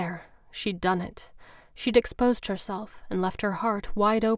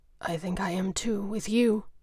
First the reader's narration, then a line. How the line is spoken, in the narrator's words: replied, his voice a little rough